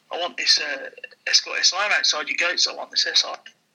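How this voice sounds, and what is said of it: Put-on Jamaican accent. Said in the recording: “he was a Jamaican. He said Jamaican accent.”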